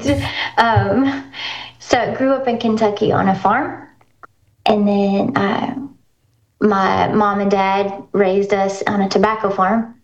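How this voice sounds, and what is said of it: Kentucky accent. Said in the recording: “I'm originally from Kentucky... where you're probably picking up on some of that accent”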